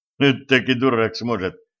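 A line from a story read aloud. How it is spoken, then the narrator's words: Scoffing. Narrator (Russian): хмыкнул стажер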